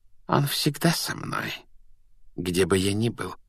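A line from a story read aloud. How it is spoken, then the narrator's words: Soft reply. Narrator (Russian): мягко ответил Квирл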